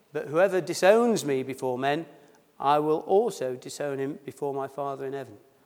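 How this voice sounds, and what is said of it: Accent that drops H sounds. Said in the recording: “I dropped my H's. That's my accent.”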